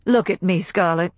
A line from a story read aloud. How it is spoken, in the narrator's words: He laughed suddenly, shortly, and said